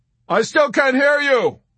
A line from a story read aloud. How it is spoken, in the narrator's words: he shouted above the even drone of the engines